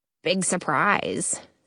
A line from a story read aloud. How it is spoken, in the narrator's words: someone mutters